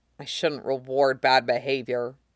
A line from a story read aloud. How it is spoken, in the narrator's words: Shane grumbles